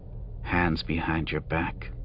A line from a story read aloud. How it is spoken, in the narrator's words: she said, her voice low enough that he barely heard it over the altitude's winds and the humming repulsors of the floating guard platforms